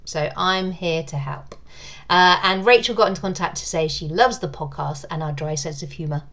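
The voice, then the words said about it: British accent. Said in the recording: “she loves listening to the podcast for my accent ... is a sucker for a British accent”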